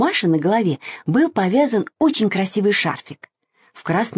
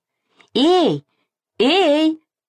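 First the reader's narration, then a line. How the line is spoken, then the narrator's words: Shouting mother. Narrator (Russian): закричала мама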